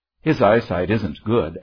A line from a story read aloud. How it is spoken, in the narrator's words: answered John